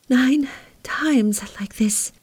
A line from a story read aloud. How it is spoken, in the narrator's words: panted faintly